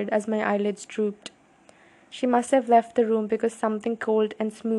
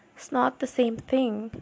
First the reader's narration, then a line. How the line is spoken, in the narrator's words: I mumbled